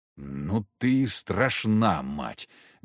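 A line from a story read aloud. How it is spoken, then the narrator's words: Silent mouthing. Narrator (Russian): беззвучно сказал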